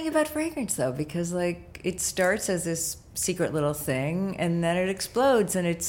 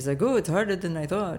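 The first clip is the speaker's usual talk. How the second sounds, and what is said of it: Put-on French accent. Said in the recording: “You like my French accent there?”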